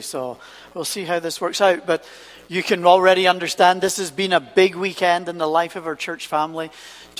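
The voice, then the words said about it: Unusual accent, speaks very fast. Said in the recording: “the one with the unusual accent who talks far too quickly”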